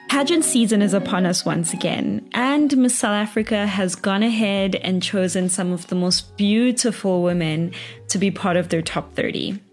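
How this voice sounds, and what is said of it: Excited, energetic voice. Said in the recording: “as you can tell by my voice, I'm like very excited”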